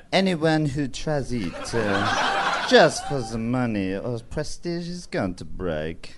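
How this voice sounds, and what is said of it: Put-on French accent. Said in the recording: “in a French accent, please ... Yeah, I can do French ... he still has an accent ... Very good.”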